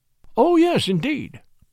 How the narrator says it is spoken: I exclaimed

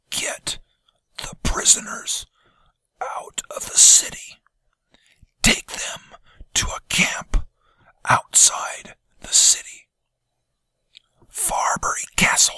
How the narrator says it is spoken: he whispered

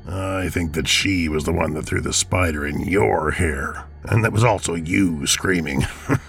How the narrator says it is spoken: chuckled Bob

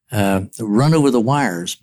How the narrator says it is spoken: said

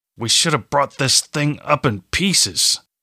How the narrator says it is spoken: Strahm said through gritted teeth

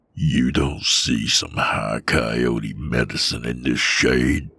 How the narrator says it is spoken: He growled through his teeth in my face

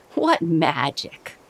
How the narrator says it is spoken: Uncle laughed

